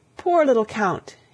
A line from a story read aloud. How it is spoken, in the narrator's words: cried